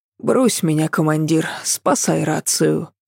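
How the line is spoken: Muttered under breath. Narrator (Russian): пробормотала себе под нос

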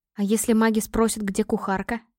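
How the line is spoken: Quiet resigned question. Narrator (Russian): Тихо поинтересовалась, понимая, что план побега неизбежен

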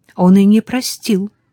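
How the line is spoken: Somewhat irritated reply. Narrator (Russian): несколько раздраженно отозвалась она

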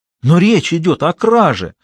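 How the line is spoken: Exclamation. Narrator (Russian): воскликнула Валентина

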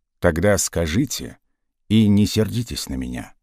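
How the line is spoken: Unexpectedly soft question. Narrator (Russian): неожиданно мягко спросил полковник

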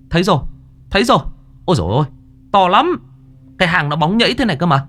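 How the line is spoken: Shout. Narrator (Vietnamese): có người la lên

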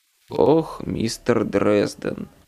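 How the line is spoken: Bored reply. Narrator (Russian): Скучающим тоном откликнулся мафиози

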